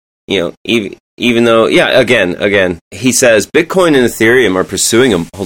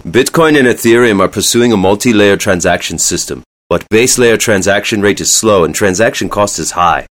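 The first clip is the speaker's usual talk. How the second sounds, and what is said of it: Elon Musk impression. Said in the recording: “going to do an Elon impression.”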